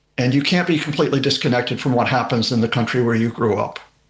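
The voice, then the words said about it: Speaks with a regional accent. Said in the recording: “You can tell from the accent that that I was born and raised there.”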